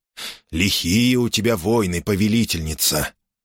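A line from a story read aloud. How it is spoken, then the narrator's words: Strange, disapproving and envious voice. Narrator (Russian): произнес он каким-то странным голосом, в котором смешивались и осуждение, и зависть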